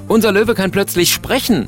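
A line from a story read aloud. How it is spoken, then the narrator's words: Calling out. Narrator (German): ruft er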